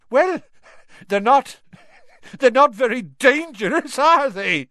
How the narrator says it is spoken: Seamus choked

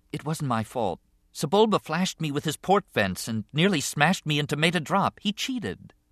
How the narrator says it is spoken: Anakin said quietly

